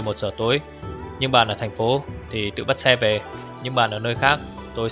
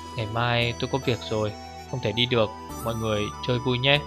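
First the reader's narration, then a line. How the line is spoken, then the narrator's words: Soft, after a pause. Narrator (Vietnamese): Im lặng một lúc mới khẽ nói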